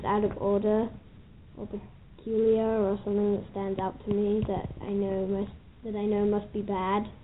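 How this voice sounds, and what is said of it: Accent mixed with New York. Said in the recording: “I can still hear the accent. It's still there mixed in with a little bit of New York.”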